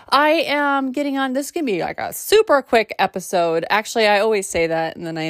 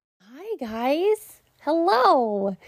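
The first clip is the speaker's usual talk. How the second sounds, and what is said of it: Odd put-on silly voice. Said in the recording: “I don't know why I did that weird voice”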